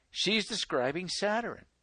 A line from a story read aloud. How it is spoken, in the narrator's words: Elder Bates exclaimed